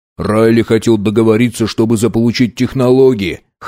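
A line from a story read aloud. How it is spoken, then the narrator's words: Snorting. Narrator (Russian): хмыкнул Арнольд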